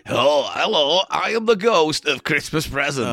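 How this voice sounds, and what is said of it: 80s stand-up comedian voice. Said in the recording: “this voice ... sort of like an 80s stand-up comedian”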